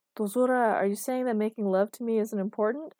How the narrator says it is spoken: asked Marcus, laughter in his voice

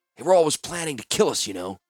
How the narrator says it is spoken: Klarz whispered to Orim

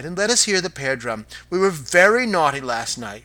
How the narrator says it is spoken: cried

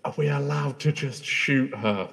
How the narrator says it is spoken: whisper to Gwyneth

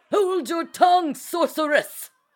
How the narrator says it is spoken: Lord Milner shouted from his seat

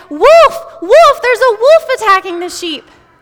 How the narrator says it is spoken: cried

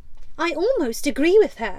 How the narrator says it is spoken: Wendy snapped

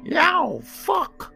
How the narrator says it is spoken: He jumps and lets out a cat squeal, while at the same time yelling

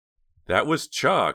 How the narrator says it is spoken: said Jade

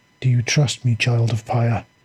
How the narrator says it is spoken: the voice asked quietly

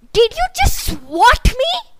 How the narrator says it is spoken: She snapped at the ultimate insult

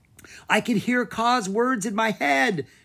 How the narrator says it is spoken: she cried

